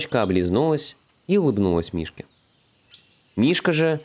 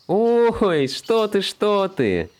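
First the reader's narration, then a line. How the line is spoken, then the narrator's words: Laughing. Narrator (Russian): Теперь рассмеялась Белочка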